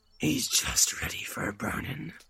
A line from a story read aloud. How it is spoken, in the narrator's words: said the man in black, with a growl of triumph